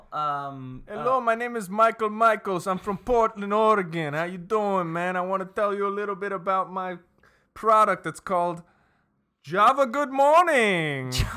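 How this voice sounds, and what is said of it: Put-on foreign-sounding accent. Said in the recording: “the accent's a little misleading”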